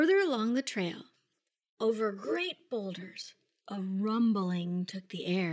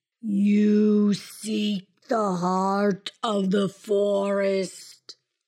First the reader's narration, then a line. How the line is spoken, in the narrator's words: his voice rumbled deep